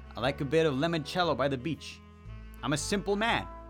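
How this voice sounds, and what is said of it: Put-on Italian accent. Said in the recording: “Why am I sounding Italian?”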